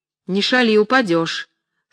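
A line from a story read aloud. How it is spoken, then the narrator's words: Stern remark. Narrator (Russian): строго заметил Петруша Ане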